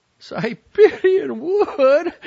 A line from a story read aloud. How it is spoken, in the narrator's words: howled